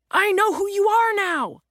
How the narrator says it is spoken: the real estate agent begins, but Jack cuts her off

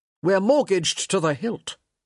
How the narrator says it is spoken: he said sharply

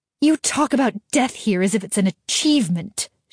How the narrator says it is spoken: she spat

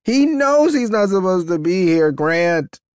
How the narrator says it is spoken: the woman yells

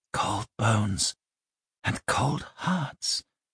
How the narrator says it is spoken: she sang quietly to herself

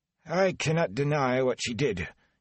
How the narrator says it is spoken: he muttered, and he did sound ashamed

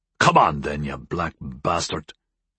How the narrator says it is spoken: he whispered

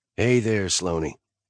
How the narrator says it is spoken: Nash said gently

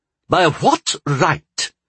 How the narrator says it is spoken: he sputtered, throwing up his hands in frustration

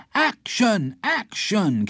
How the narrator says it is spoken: came the shouts from the audience

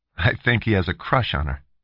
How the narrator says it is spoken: Philip commented easily

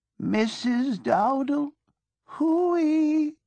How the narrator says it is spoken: she called out in a tragic voice

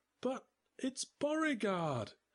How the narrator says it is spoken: she stammered

